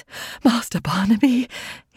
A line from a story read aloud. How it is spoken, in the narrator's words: exclaimed